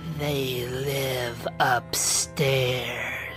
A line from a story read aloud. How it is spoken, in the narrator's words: whispered